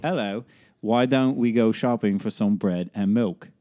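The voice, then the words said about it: English or British accent, pretty good. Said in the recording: “Can you do an English or British accent? ... That's actually pretty good.”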